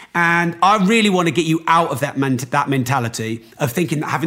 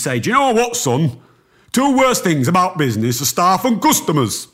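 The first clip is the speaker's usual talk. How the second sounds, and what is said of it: Put-on North Yorkshire accent. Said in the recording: “that's supposed to be a North Yorkshire accent”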